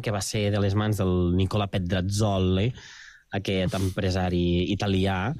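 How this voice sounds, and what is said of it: Put-on Italian accent. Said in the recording (Catalan): “Molt bon accent”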